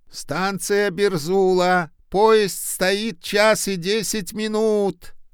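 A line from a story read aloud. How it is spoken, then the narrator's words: Conductor shouting. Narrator (Russian): прокричал кондуктор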